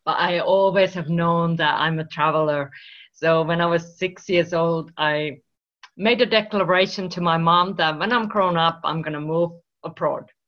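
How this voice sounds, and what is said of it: Finnish accent. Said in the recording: “I'm originally from Finland, if you wonder where this accent comes from”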